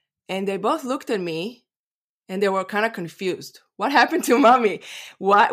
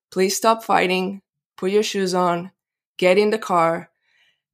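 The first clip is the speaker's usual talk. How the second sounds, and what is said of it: Very peaceful, calm voice. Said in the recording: “in a very peaceful voice.”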